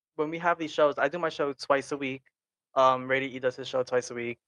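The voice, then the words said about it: Tired, exhausted voice. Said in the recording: “if you can tell by my voice, but I'm a little exhausted too.”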